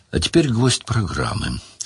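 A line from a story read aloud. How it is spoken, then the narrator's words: Very solemn. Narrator (Russian): сказал Брагерт крайне торжественно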